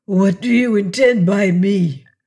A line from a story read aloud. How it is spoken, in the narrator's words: the Spaniard inquired at last, his voice hoarse